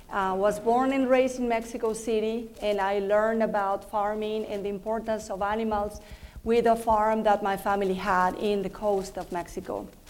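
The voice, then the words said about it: Mexican Spanish accent in English. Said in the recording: “I am from Mexico. That's why I have an accent.”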